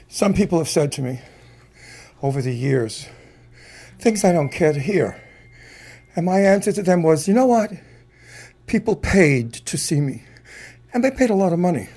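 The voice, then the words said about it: Out of breath, breathless speech. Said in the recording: “Excuse me, I'm out of breath.”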